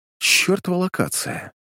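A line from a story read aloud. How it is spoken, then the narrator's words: Muttered under breath. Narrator (Russian): Пробормотал я себе под нос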